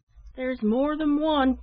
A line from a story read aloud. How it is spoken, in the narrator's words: cried another man